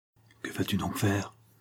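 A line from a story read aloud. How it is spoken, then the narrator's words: Whispered in ear. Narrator (French): souffla Rocambole à l'oreille de Zampa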